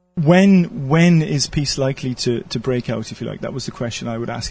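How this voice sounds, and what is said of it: Welsh accent. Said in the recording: “It must be the Welsh accent.”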